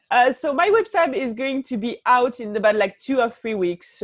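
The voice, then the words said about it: French accent in English. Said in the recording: “my French accent”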